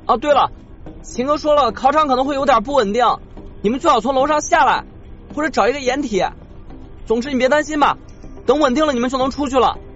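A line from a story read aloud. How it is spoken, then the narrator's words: Shouting. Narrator (Chinese): 余文冲他喊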